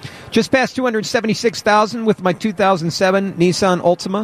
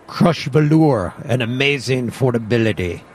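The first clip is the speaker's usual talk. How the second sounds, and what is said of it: Thick Latin accent, Ricardo Montalban impression. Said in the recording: “Ricardo Montalban on the Cordoba... Must be said with a thick Latin accent. Well, I tried.”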